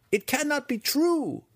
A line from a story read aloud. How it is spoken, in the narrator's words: one student cried from the side